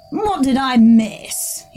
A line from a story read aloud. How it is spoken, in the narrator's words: he said, scoffing at Corineus